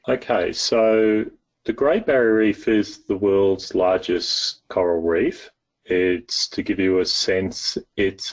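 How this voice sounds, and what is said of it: Australian accent. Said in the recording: “I'm Australian, as you can probably tell by my accent”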